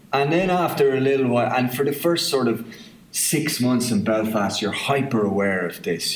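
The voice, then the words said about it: Southern Irish accent. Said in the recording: “I can't let them hear my accent ... this ridiculous southerner sort of idea”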